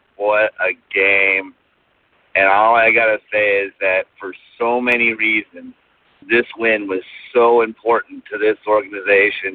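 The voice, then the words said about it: Hoarse, strained, worn-out voice. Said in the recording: “My voice is gone. I can't really do my real Raider chant”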